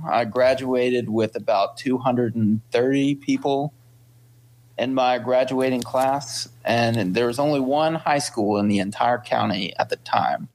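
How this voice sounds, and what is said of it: Slight regional accent. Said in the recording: “I hear a little bit of an accent.”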